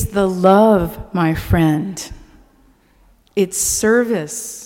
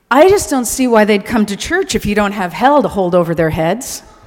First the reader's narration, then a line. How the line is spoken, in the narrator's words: he exclaimed